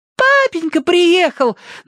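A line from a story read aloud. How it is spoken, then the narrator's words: Sisters squealing over each other. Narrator (Russian): наперебой завизжали сестры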